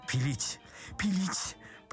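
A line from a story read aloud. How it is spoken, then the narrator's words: Feeble babble. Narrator (Russian): пролепетал Паниковский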